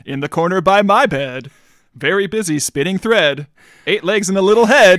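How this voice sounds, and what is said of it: Radio announcer voice. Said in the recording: “put on your radio announcer voice to do that. You never do that. You always just speak in your ... voice”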